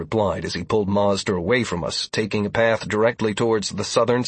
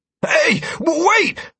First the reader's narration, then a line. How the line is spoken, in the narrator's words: Mazder yelped as Dire practically yanked him off his feet